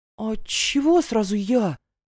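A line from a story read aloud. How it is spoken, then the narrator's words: Choked, forced out. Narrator (Russian): Чуть не подавившись лепешкой, выдавила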